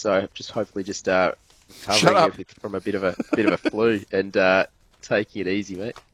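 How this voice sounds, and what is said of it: Hoarse, strained voice. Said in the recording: “I've had a bit of a sore throat, which you probably can tell from my voice.”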